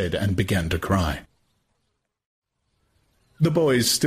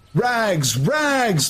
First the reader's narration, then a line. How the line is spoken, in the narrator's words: the boys used to shout at him